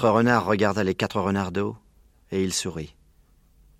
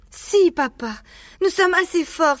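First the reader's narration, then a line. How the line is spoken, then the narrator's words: Animals exclaiming together. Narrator (French): s'écrièrent les renards d'eau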